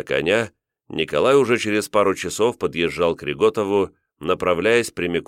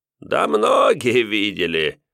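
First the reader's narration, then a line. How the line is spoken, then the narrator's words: Sudden burst of laughter. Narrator (Russian): неожиданно расхохотался Федос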